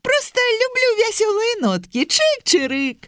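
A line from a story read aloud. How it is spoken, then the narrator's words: Cheerful chirp. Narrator (Belarusian): бадзёра цвыркнуў верабейка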